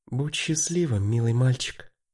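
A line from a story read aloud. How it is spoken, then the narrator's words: Mother's whisper inside head. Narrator (Russian): прошептал в голове Мартина мамин голос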